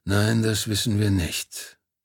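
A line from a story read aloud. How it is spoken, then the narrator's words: Confirming with heavy sigh. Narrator (German): bestätigte Pana und seufzte schwer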